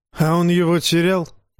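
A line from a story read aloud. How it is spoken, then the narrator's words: Snorting. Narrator (Russian): хмыкнул Дайвин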